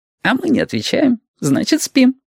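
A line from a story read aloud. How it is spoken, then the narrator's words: Giggling. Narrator (Russian): хихикнул Яшка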